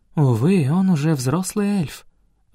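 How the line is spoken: Sighing. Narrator (Russian): вздохнула Наарин

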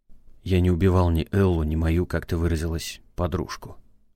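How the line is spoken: Resigned sigh. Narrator (Russian): вздохнул обреченно Валдаев

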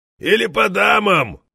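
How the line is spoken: Barked joke. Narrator (Russian): Пошутил и рявкнул в слуховой аппарат соседа

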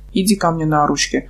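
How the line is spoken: Tender, as to a child. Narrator (Russian): проговорил Бенефис так ласково, будто бы обращался к маленькому ребенку

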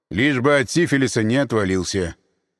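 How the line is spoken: Grim retort. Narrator (Russian): мрачно парировал он

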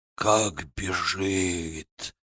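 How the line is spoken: Hoarse. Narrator (Russian): хрипло сказал у меня за плечом Нагайцев

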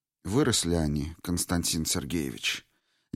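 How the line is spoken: Quiet. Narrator (Russian): негромко сказала Ирина Ивановна

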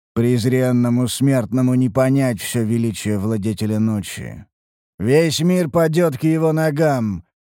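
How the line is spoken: Boy's eerie otherworldly voice. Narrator (Russian): заявил мальчик потусторонним голосом

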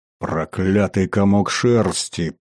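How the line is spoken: Growling. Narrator (Russian): прорычал майордом

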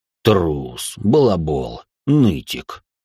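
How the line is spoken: Deep bass voice. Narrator (Russian): пробасил Рэй

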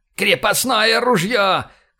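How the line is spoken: Shout. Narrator (Russian): крикнул он

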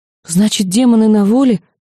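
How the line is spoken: Frightened girl's reply. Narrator (Russian): испуганно отозвалась девочка

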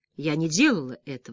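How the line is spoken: Plain. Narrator (Russian): сказала она

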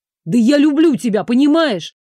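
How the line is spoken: Shouting. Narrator (Russian): Крикнул

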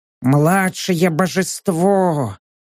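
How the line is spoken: Wheezing. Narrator (Russian): просипел Гонсалес

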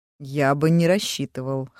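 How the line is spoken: Snorting. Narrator (Russian): хмыкнул Гран

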